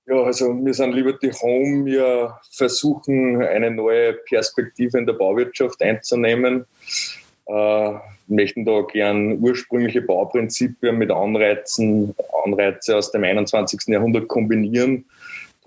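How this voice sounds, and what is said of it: Upper Austrian German dialect. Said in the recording (German): “Wenn man ein bisschen hören kann, der ... ist ein Oberösterreicher. Ähm, sehr charmanter Dialekt.”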